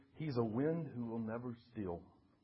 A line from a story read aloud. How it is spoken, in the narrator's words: softly at first, quiet as the first breeze that whispered